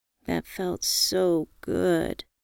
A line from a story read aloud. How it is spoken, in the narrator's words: I purred